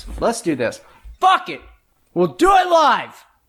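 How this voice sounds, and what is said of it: Yelling. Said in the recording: “I'm yelling.”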